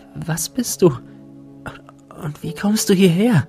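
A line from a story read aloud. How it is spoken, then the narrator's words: Breathless question. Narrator (German): fragte sie atemlos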